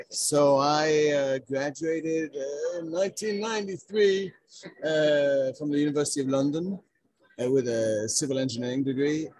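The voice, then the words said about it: Noticeable accent. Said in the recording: “obviously I feel an accent”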